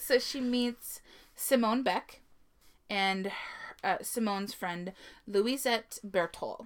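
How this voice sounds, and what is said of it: Usual voice. Nothing is said of it.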